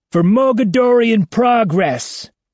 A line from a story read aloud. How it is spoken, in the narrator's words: Ivan shouts